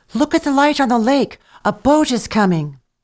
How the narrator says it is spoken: She cried

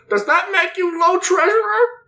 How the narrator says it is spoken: someone in the very back yells

